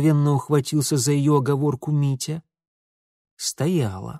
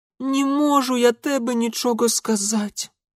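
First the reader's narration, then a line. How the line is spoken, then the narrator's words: Broken girl pleading. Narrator (Russian): Уже окончательно сломавшись, взмолилась девчонка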